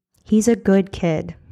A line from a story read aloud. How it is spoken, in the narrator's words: Simon said